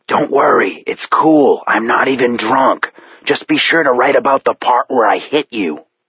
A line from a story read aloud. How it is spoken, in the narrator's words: whispered